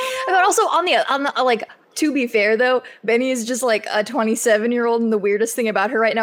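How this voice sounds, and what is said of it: Usual voice. Nothing is said of it.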